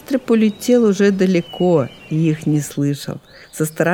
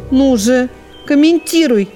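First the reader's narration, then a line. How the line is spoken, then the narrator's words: Squirrels shouting in chorus. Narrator (Russian): закричали белки хором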